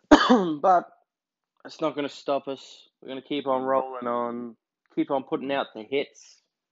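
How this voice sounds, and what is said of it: Stuffy, congested sick voice. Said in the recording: “if you can't tell from my voice, I'm a little bit sick. ... I'm a little bit stuffy”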